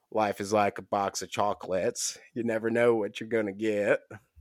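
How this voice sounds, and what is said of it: Forrest Gump character impression. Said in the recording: “Okay, Forrest. ... That's my Forrest impression.”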